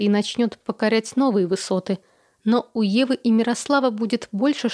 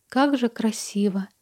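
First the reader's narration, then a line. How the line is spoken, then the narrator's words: Whisper. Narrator (Russian): прошептала она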